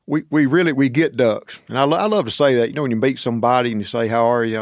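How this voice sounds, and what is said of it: Southern drawl. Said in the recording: “you had a really nice drawl ... an accent for Andy Griffith”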